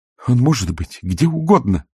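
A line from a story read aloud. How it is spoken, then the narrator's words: Exclamation. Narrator (Russian): воскликнула Агнеса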